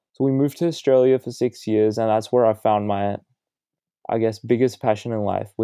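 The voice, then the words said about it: Australian-influenced accent. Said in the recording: “my dad had to move to Australia for his job. That's probably where you guys can hear my accent from”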